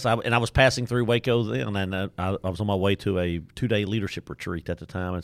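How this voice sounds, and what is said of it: Deep East Texas accent. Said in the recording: “by my accent. You can tell I'm from Deep East Texas, Nacogdoches, Texas.”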